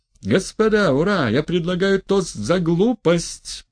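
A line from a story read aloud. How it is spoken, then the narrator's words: Frenzied shouting. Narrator (Russian): прокричал Степан Трофимович, уже в совершенном исступлении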